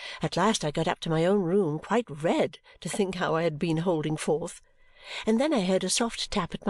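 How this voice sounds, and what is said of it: Usual voice. Nothing is said of it.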